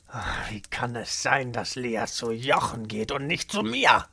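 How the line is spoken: Muttering to himself. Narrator (German): murmelte er vor sich hin

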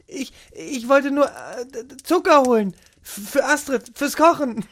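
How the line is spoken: Stammering. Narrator (German): Lea stammelte

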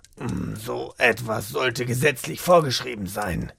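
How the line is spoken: Muttering to himself. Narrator (German): murmelte Rainer vor sich hin

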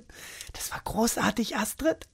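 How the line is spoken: Admiring whisper. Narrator (German): flüsterte bewundernd

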